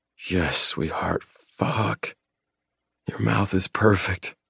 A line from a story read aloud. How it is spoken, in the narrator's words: groan as pleasure crashes over me